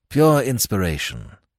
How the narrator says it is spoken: murmured Nayland Smith

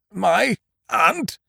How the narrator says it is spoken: mumbled, swaying on the door handle

